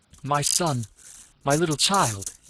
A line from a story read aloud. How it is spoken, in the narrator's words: he cried, in a choked, trembling voice